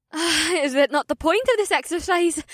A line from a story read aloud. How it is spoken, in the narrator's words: May giggled, and the sound was like music to my ears